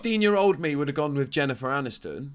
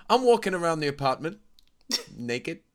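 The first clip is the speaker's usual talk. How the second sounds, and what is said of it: Imitates another person's voice. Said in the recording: “That's a very good almost impression.”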